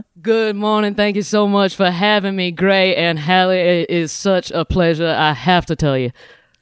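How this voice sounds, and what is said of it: Strong Southern drawl accent. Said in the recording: “You have an accent that makes you sound like you're some kind of, you're the lawyer in My Cousin Vinny ... you sound like that one Netflix character, you know, Kevin Spacey ... Foghorn Leghorn, exactly”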